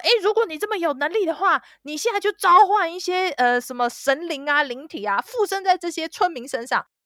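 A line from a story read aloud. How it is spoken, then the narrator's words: Roaring. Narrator (Chinese): 那个戏剧指导 扮演宗教领袖，对着巫师在大吼说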